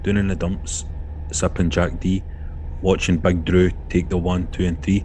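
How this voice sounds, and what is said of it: Attempted impression of Grado. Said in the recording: “I'm doing Grado's voice here ... I can't do impersonations ... I'm trying to take Grado.”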